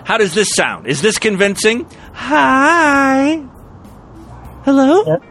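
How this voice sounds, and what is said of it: Put-on feminine voice. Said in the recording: “I might sound a little different because I'm getting some voice stuff done too, so I can sound more like a woman. ... Do I sound like a lady?”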